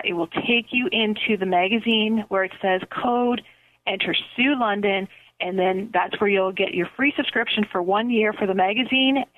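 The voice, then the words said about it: Canadian accent. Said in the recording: “can you hear my Canadian accent really coming out? How many times am I saying A today here for you?”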